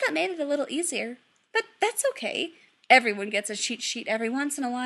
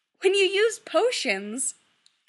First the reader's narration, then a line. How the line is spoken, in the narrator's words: Kim laughs